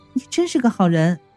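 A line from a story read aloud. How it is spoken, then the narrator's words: Sweet smile. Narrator (Chinese): 云美是甜甜一笑道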